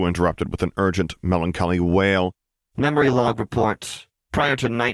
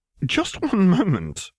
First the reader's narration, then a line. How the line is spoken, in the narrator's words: Piet sputtered at it